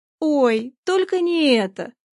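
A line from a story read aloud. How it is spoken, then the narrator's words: Muffled groan. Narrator (Russian): простонала она, уткнувшись ладонями в лицо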